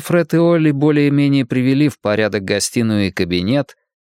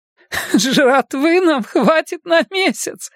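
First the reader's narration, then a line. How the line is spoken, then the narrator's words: Forced out through laughter. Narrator (Russian): выдавила Арлин сквозь смех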